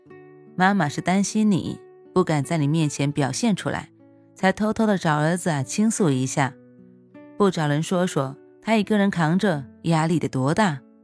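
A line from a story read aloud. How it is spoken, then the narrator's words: Laughing, soothing. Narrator (Chinese): 隔壁床大姐扑哧一声笑了出来，缓和气氛似的说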